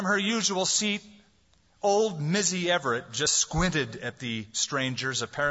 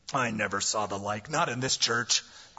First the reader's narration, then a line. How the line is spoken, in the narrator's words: grumbled a man